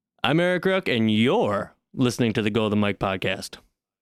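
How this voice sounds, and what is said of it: Smooth radio announcer voice. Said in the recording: “you have like a radio voice when the headphones are on ... Very smooth”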